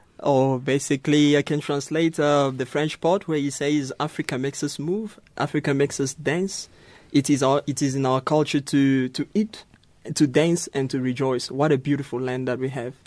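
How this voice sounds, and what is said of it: Beautiful accent. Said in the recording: “What a beautiful accent you have.”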